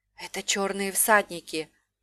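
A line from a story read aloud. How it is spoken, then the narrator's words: Whispered. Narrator (Russian): прошептала Талия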